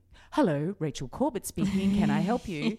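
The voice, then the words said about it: Formal polite phone voice. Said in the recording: “you got a phone voice ... it's like having a phone voice where you're formal and you're polite and you're objective”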